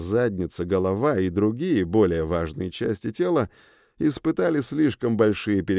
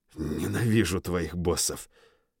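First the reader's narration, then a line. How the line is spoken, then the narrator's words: Short curse through teeth. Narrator (Russian): Я снова сматерился, но уже покороче, сквозь зубы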